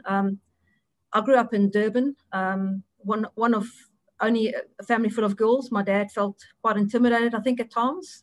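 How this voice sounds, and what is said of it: South African accent. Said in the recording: “from my accent, clear, I'm a South African”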